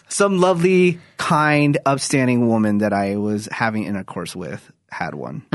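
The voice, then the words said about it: Sarcastic delivery. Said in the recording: “When I'm being sarcastic,”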